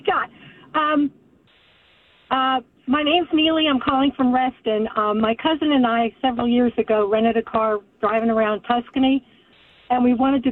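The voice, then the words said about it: Congested, stuffed-up voice. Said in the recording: “you sound really stuffed up.”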